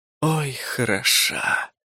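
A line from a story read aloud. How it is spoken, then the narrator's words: Delighted exhale. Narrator (Russian): выдохнул в восторге мой побратим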